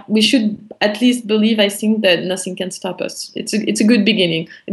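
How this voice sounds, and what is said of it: French accent. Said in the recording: “the French accent”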